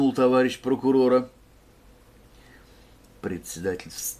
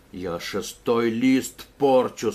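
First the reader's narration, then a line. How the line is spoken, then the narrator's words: Angry. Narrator (Russian): сказал он сердито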